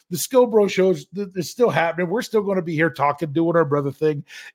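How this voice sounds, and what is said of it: Imitates another person's voice. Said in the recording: “Let's see if I can do my impersonation.”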